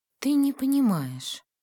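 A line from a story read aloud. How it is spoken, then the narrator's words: Soft protest. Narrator (Russian): мягко сопротивлялась она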